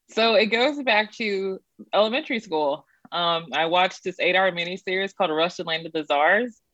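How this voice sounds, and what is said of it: Texas accent. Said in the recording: “I'm from Texas, if you can't tell by my accent.”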